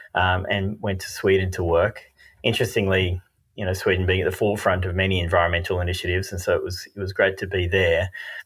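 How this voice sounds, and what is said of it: Australian accent. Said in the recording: “Most people can probably tell from the accent that I'm Australian”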